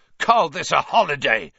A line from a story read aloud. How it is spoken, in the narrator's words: Seamus Finnegan roared at the common room